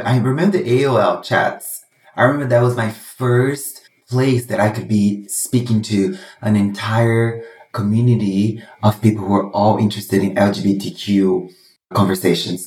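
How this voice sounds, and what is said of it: Brazilian accent. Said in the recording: “Brazilian boy ... Now you guys know where the accent is from.”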